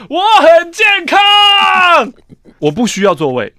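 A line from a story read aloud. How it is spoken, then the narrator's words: Silent inner shout. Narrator (Chinese): 我只会在心中大喊说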